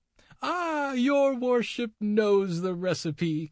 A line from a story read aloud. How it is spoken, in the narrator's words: cried the old lady, cackling aloud